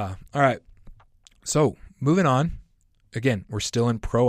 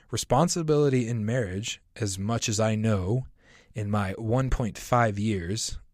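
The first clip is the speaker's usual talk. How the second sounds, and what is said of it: Sarcastic tone. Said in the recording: “I hope you hear the sarcasm in my voice”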